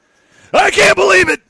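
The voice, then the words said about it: Imitates another person's voice. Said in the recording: “That's my Patrick Creighton. ... I can only do that for like 2 seconds and then my voice is gone.”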